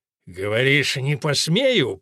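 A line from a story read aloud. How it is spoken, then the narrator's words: Growling. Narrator (Russian): прорычал он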